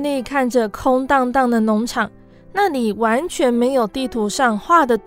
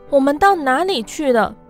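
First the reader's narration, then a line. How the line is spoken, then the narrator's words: Clucking clamor. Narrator (Chinese): 鸡咕咕地叫嚷着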